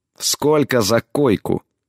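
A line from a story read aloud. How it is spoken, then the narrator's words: Through gritted teeth. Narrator (Russian): процедила она в ответ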